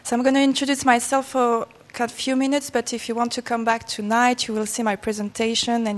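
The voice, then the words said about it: French accent. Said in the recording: “I hope you're going to understand my accent ... I am French”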